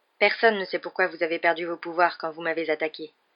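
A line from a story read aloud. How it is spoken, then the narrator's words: Abrupt tone. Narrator (French): dit Harry d'un ton abrupt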